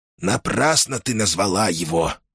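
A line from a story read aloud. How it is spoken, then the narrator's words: Grumbling mutter. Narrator (Russian): буркнул Сибилла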